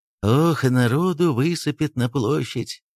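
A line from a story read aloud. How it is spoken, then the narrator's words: Sighing, habitual manner. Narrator (Russian): Вздохнул Кириллов в привычной манере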